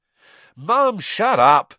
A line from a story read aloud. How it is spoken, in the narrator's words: Ron yelled